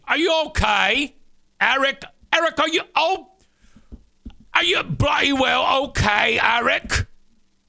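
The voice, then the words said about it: Imitated British woman's accent. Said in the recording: “My neighbor, who's from the UK, she's got this really sweet accent ... I can't do a British accent”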